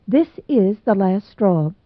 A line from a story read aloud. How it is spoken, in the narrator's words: she said